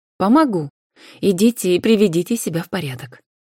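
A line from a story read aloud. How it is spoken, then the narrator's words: Commanding and calm. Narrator (Russian): властно и спокойно сказала Анфиса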